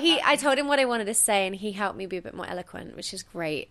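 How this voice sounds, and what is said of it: English accent. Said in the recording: “your accent will get you a long way ... sound so. so. smart and elegant ... an English accent”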